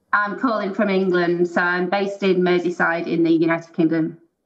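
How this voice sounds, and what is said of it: English Merseyside accent. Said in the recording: “accent's”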